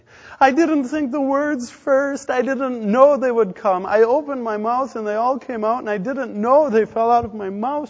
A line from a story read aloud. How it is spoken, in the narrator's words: she cried